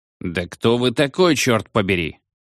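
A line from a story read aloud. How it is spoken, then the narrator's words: Irritated. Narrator (Russian): раздраженно проговорил доктор Роузбери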